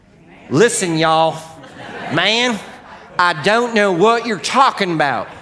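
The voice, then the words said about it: Put-on Southern US accent. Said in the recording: “Galileans have a different accent than people in Jerusalem ... I always think that it's from the south because I can do that the best”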